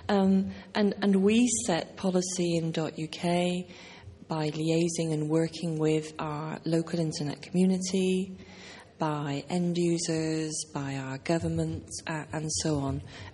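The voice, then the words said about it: British accent. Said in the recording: “I come from .UK, in case you hadn't understood the accent.”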